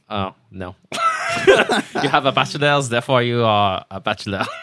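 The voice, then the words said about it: Put-on French accent. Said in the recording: “say the word bachelor in a French accent”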